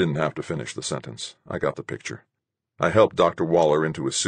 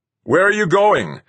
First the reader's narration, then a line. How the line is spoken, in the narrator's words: Rodriguez yelled after me